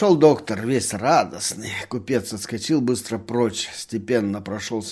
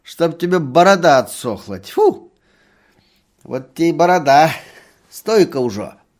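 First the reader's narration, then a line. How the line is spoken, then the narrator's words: Spitting, then loud laughter. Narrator (Russian): плюнула, захохотала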